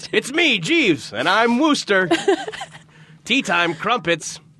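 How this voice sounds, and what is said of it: Imitates another person's voice. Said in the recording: “that's my Lou Diamond Phillips impression”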